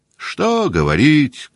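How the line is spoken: Shouting. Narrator (Russian): крикнул худощавый

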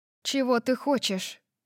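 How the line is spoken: Even-voiced question. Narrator (Russian): спросила я ровным голосом

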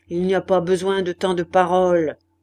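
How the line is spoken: Abrupt grumble. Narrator (French): grogna brusquement Maheu

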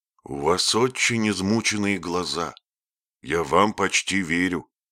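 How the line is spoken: Plain. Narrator (Russian): ответил он

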